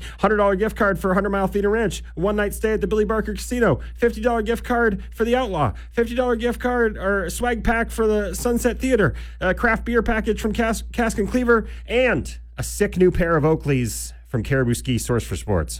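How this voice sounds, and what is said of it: Breathless after rapid listing. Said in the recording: “Holy smokes, I'm out of breath.”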